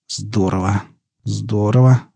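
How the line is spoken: Muttering under breath. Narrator (Russian): бормотал себе под нос доктор

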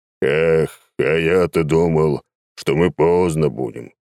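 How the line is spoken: Thundering voice. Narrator (Russian): прогремел Лев Николаевич

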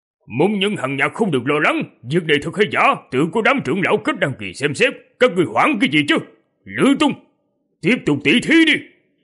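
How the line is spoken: Loud shout, suppressed worry. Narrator (Vietnamese): Ông ta cố gắng kiềm chế sự lo lắng, quát lớn

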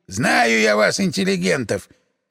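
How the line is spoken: Displeased grumble. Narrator (Russian): недовольно пробурчал дворник

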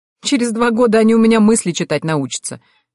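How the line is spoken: Laughing. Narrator (Russian): рассмеялась я

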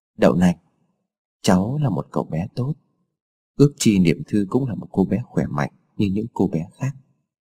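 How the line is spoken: Muttering. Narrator (Vietnamese): Lam lẩm bẩm

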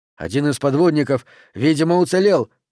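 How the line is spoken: Shouted. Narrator (Russian): прокричал Пендергаст

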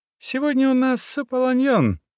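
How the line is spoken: Laughing shout. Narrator (Russian): смеясь, крикнула она

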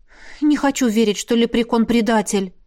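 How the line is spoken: Sighing. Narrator (Russian): вздохнула Лесли

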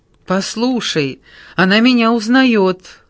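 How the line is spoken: Joyful statement. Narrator (Russian): радостно сказала Джессика

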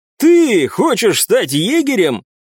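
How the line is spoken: Loud mocking laughter. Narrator (Russian): расхохотался глупый здоровяк

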